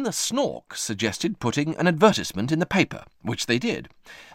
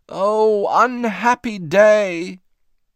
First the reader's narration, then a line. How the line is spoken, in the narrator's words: Moomin Mama only shook her head and wailed